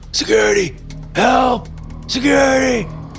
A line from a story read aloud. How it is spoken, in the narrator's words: cried out in a hoarse voice from the ground